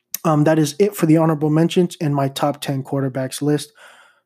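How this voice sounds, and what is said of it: Dry, tired voice with stutters. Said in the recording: “Sorry if my voice is a little dry, if I like stuttered a little bit. Did not sleep much last night.”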